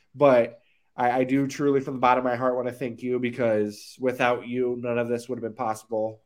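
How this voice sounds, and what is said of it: Congested voice from a cold. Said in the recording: “I'm not as broken up as I sound. ... I have a cold.”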